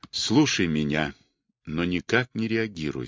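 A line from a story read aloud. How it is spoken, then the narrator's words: Quiet. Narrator (Russian): сказал он тихо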